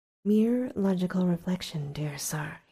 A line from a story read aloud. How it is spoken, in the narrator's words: he said